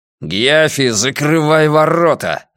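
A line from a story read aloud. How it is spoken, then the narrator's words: Growled. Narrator (Russian): рыкнул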